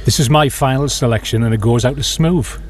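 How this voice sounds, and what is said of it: Smooth radio DJ announcer voice. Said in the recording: “That was the best ever radio voice”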